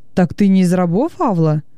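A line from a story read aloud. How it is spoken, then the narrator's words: Plain. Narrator (Russian): спросил Венеций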